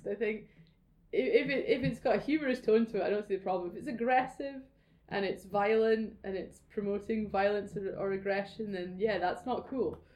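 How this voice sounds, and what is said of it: Scottish accent with rolling R's. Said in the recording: “swear words sound great in a Scottish accent... Those rolling R's.”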